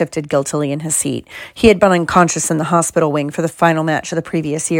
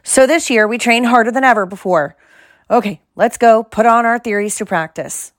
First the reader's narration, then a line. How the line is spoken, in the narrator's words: Wood shouted